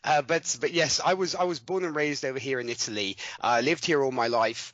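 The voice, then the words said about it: British-sounding English accent. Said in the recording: “though my accent might say different ... I have not retained the South African accent ... this should we say British accent works nonetheless on radio too”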